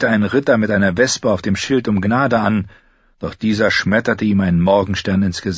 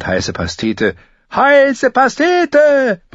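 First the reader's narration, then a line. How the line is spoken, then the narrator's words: Bellowed. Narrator (German): brüllte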